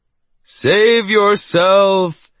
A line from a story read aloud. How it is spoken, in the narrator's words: wailed as dramatically as he could